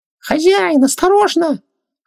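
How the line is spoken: Scream amid piercing shriek. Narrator (Russian): раздался вопль Хубактиса, слившийся с душераздирающим визгом Ванессы

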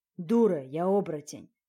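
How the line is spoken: Dragon's growl. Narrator (Russian): рыкнул дракон

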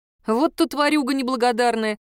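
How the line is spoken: Good-natured laugh. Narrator (Russian): рассмеялась я беззлобно

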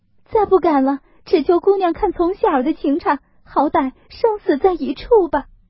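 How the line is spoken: Crying, pleading. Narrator (Chinese): 入画又跪下哭求说

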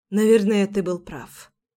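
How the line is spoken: Quiet. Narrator (Russian): тихо сказала я

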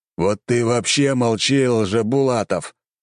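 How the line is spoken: Old man's growl. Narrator (Russian): рыкнул старик

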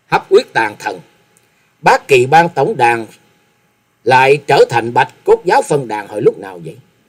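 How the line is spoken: Cold voice. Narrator (Vietnamese): giọng lạnh lùng nói

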